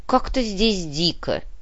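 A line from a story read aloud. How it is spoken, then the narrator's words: Grumbling. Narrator (Russian): пробурчал Птицей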